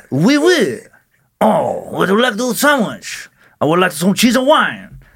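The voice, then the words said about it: Mock French accent, sounding Russian. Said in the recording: “a little bit of a French accent ... That's not even French. I was like Russian or something.”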